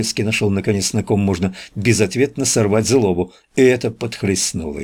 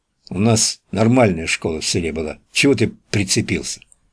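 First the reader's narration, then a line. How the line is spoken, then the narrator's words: Flushed grumble. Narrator (Russian): пробурчал побагровевший Сурков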